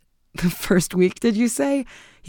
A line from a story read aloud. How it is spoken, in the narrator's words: with a long laugh